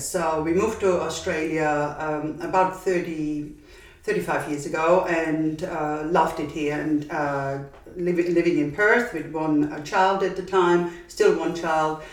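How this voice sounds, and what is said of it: Austrian accent. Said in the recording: “my accent is Austrian and I'm originally from Austria”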